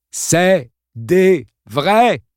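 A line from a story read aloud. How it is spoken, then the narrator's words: Shouting into ear. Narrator (French): répéta Mike en criant dans l'oreille de Kevin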